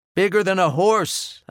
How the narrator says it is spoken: I shouted

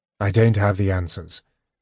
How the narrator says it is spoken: Tanis said, sighing

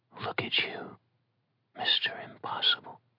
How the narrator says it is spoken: whispered fondly

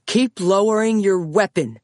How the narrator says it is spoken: another officer yelled

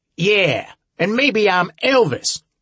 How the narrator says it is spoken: Harbinger shouted back

